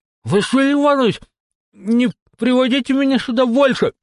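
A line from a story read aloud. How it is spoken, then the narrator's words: Pleading with full mouth. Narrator (Russian): С набитым ртом взмолилась Дольче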